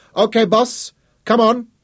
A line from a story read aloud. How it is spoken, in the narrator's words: Hugo Kramer shouted up at the deck